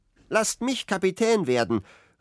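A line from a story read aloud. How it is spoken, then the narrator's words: Repeated call. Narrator (German): rief wieder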